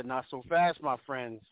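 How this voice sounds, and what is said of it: Lee Corso impression. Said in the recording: “in my Lee Corso voice.”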